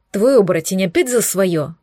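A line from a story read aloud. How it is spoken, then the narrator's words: Displeased muttering. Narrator (Russian): пробурчала недовольно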